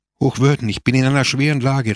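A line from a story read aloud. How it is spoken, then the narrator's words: Calling out. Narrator (German): rief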